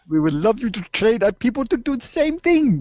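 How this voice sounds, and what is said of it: Generic overseas accent. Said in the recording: “I don't even know what accent that was. ... That was just some kind of generic overseas accent”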